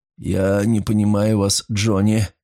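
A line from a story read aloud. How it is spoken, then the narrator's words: Tired. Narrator (Russian): голос Файнхорна снова звучал устало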